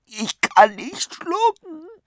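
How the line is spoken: Whining. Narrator (German): jammerte

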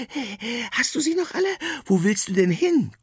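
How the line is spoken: Panting. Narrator (German): keucht sie

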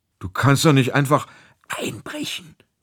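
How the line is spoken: Whisper. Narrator (German): flüsterte Theo

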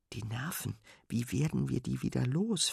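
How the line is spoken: Whispering. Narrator (German): flüstert Fine Sven zu

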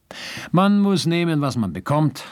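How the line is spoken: Laughing speech. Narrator (German): sagte und lachte schon wieder

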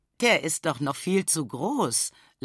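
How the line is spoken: Mother laughing. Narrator (German): lacht Mama

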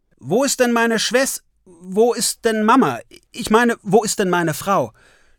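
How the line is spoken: Stuttering. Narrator (German): stottert Ole

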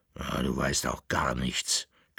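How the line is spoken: Growling dog. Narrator (German): knurrte der Bauernhund

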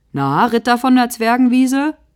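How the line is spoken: Mocking. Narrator (German): höhnt Bruno

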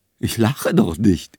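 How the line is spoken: Speaking while laughing. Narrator (German): sagte sie, lachte aber weiter

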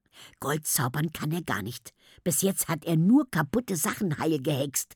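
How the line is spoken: Whisper. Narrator (German): flüsterte Emilia Tammo zu

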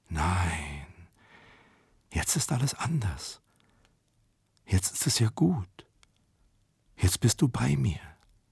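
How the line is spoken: Whisper. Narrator (German): flüsterte die Grusinskaja

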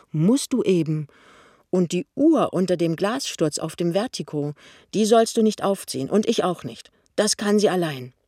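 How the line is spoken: Stern. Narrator (German): sagt Pinneberg streng

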